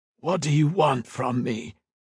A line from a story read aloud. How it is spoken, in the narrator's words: croaked